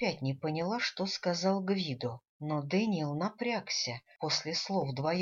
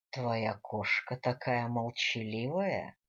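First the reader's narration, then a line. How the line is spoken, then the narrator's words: Purring tone. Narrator (Russian): мурлыкающим тоном заявил Гвидо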